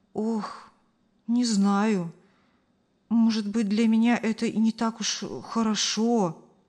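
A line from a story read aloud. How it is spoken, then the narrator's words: Sighing woman. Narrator (Russian): вздохнула женщина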